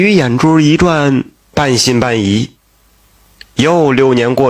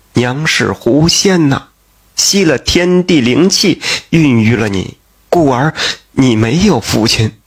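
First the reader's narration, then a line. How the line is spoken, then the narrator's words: Crying, deceiving. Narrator (Chinese): 贾氏……哭泣的就骗他说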